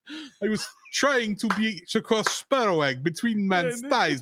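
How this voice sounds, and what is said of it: Put-on Russian accent quoting Zangief. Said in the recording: “my Russian accent ... quote Zangief”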